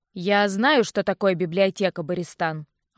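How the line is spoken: Irritated snap. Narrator (Russian): огрызнулся Винсент

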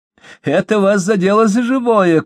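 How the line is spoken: Possessed woman's joyful shout. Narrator (Russian): крикнула одержимая и радостно выкрикнула

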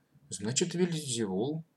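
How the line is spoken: Timid agreement. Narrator (Russian): робко согласился Матвей

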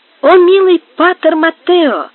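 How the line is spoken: Joyful boy's exclamation. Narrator (Russian): воскликнул мальчик, радостно

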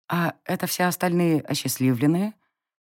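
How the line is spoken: Quiet. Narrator (Russian): Тихо кивнула я

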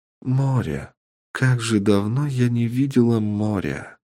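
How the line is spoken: Tearful muttering. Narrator (Russian): пробормотала она, а уголки глаз заблестели

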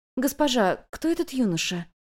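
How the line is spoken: Quiet question. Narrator (Russian): негромко спросила Юнь-Юнь

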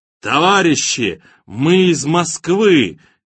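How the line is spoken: Shouted through cupped hands. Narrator (Russian): Боря сложил руки рупором ... прокричал

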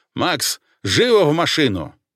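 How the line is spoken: Barking. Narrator (Russian): рявкнул

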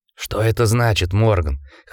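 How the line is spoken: Hoarse question. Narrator (Russian): хрипло спросил Гардинер

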